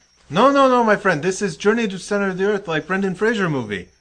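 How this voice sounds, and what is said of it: Put-on accent, hard to understand. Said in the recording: “No, I don't understand your accent.”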